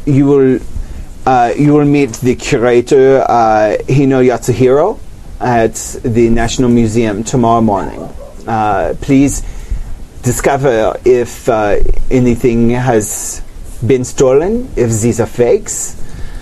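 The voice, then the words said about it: Inconsistent put-on character accent. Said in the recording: “Sorry, lots of time in France. ... I don't know what has happened to my accent anymore. ... I'm so all over the place. ... I am doing them all at once.”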